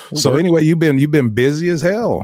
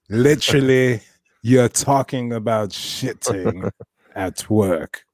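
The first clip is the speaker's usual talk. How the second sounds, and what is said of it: Put-on English accent. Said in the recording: “I did that in the English accent”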